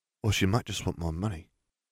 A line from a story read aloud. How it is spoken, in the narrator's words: Katie muttered